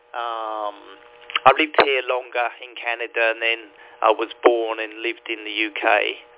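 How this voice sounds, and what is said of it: London English accent. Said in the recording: “my London accent stuck with me ... I guess my London accent hasn't gone away”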